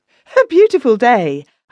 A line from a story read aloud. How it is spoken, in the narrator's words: I cried